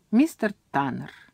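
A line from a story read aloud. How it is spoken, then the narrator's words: Voice from behind. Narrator (Russian): Голос раздался сзади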